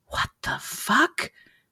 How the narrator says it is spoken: Julie whispered

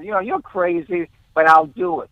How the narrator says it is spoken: he laughed and he said

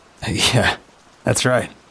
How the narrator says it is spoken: I laughed, the sound a bit more nervous than I intended

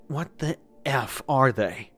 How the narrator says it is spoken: asked in a breathless voice

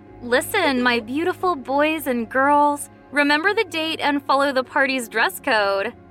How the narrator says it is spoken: Lena happily told everyone

